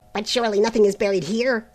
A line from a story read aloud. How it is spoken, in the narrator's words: exclaimed Braith uneasily